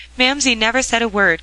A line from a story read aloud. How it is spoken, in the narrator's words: cried, recovering herself